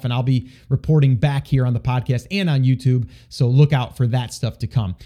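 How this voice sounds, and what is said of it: Hoarse, strained voice. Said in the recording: “my voice is a little shot”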